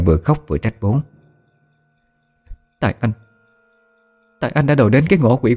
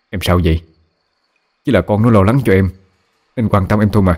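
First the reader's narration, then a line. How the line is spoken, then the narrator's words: Irritated scolding shout. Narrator (Vietnamese): Bố cáu lên quát mẹ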